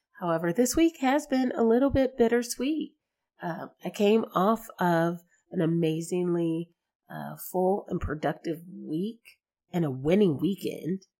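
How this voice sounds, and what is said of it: Slightly sick, congested voice. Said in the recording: “I'm sure you can probably hear it from my voice, a little bit of cold or, you know, something”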